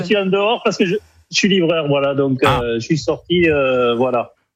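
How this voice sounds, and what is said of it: Northern French accent. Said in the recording (French): “on avait remarqué cet accent du Nord, évidemment”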